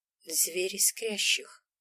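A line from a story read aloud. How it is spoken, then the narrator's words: Quiet reply. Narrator (Russian): Тихо отозвалась я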